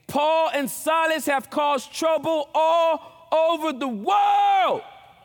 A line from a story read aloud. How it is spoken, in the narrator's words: they shouted